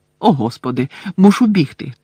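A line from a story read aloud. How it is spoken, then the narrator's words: Anxious exclamation. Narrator (Ukrainian): тривожно вигукнув Бегмен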